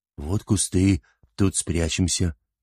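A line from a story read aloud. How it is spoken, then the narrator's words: Frightened plaintive bleating. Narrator (Russian): Испугавшись косого, жалобно проблеял он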